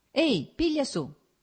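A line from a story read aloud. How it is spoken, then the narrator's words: Shouted. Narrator (Italian): gridò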